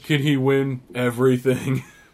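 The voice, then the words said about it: Imitates another person's voice. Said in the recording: “that's not really a good Leander impression.”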